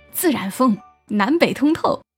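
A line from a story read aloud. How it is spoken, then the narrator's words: Smiling. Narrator (Chinese): 我笑着说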